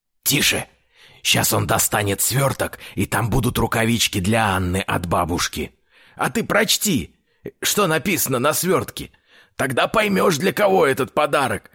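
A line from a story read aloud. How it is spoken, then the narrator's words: Cheerful whisper, dwarf father. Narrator (Russian): весело прошептал гном-отец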